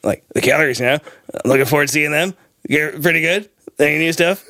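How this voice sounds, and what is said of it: Poor imitation of another person's voice. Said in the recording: “my terrible Leo Varadkar impression ... It's bad. It's bad. It's not a great impression.”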